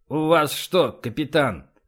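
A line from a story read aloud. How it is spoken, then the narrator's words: Said through gritted teeth. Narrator (Russian): процедил Эссекс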